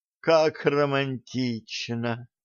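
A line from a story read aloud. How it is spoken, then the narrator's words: Sighed. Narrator (Russian): вздохнула Алиса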